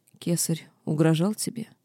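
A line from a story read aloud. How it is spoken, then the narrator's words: Soft laugh. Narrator (Russian): Рыжий вдруг негромко рассмеялся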